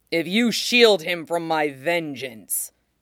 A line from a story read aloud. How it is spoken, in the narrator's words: he said savagely